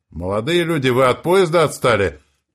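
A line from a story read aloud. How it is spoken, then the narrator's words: Shout. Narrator (Russian): крикнула она нам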